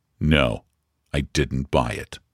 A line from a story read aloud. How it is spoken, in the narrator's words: he answered as coldly and with as much hauteur as possible